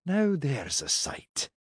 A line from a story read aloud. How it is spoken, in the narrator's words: muttered